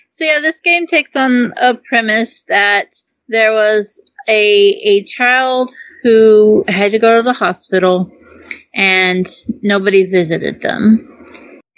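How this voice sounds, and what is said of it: Noticeable regional accent. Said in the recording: “Y'all hear my accent.”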